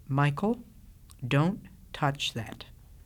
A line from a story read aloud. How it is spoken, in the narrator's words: his father, who continued to say quietly